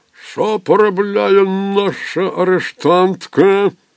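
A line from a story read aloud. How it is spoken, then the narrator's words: Growling. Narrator (Ukrainian): гарчав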